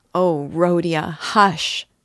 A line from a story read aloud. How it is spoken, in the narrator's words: cried Dunya bitterly